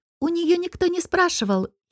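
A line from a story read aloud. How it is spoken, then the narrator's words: Giggling. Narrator (Russian): хихикнула Келия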